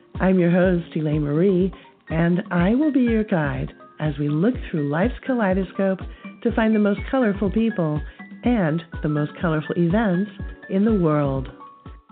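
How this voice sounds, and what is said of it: Stuffy, congested voice. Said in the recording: “as you can probably tell by my voice, I also have a cold”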